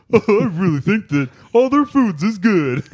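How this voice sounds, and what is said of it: Cartoonish imitation of another person. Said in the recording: “This is my new Dan imitation. ... I'm like a cartoon dinosaur ... That's my Dan.”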